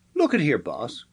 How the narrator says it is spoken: cried the excited Scanlon

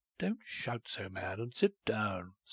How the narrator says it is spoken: said Cahusac quietly

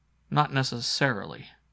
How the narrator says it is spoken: I told her evenly

